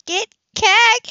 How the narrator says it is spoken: she squealed

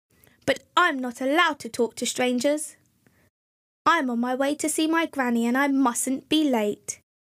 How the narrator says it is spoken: said Little Red Riding Hood firmly

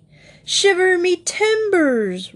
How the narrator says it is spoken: roared the Admiral

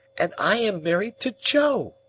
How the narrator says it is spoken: cried Biddy in a burst of happiness

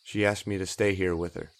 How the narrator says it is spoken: said, his voice wavering

